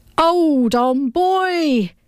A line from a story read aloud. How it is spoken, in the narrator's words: yelled the professor